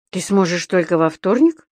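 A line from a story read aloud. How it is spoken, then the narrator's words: Confused repeated question. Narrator (Russian): растерянно переспросил господин Пепперминт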